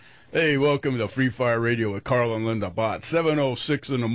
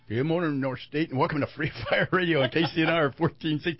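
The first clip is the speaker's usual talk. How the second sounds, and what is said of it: Imitates another person's voice. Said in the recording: “That was my Gabby Hayes imitation as I was choking right then.”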